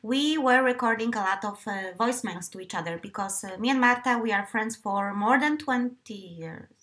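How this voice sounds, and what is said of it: Eastern Polish accent. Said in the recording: “this is my accent. By the way, I do have a tendency to have a very beautiful Eastern Polish accent sometimes, which I normally don't have when I talk to people, but apparently on podcasts I like to give that Eastern European flavor”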